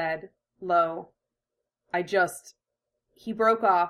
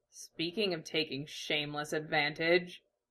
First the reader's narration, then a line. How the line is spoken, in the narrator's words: Iruka said dryly